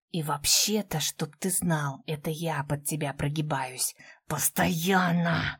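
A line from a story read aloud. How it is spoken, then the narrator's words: Growled through teeth. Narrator (Russian): Прорычала сквозь зубы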